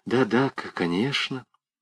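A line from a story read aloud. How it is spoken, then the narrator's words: Embarrassed mumbling. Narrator (Russian): Она смущенно забормотала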